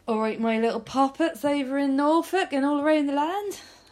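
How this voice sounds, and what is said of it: Put-on Norfolk accent. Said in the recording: “I think your accent's going to go all around the land.”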